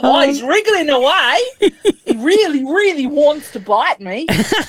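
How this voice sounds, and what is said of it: Imitates another person's voice. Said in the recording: “Are you good at accents? ... I thought that was good. I felt like Steve Irwin was back in the room with us.”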